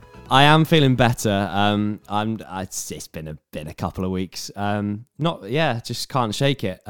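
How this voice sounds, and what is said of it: Sick, unwell-sounding voice. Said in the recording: “I sound terrible because I'm not very well”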